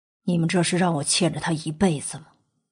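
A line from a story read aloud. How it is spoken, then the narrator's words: Sighing after pause. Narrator (Chinese): 莫景浩半晌之后才叹息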